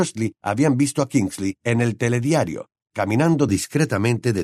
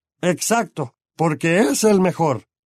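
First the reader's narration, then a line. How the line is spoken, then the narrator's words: Bellowing. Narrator (Spanish): bramó tío Vernon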